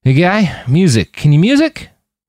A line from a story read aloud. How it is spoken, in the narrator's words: Roland realized he was slurring, and his words were not coming out the way he'd intended